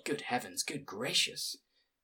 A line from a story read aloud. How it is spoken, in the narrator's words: whispered the old woman